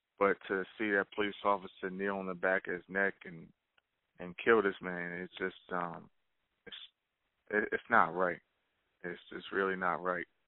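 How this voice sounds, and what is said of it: Pained, weary voice. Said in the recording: “I can hear it in your voice. ... I can hear the pain, and I can hear the – you're just fucking tired”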